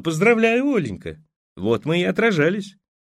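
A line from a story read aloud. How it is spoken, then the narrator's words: Forced cheerfulness. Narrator (Russian): Юртаева нарочито весело сказала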